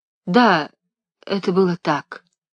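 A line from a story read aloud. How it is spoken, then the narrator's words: Quiet. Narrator (Russian): тихо сказала фрау Леонтина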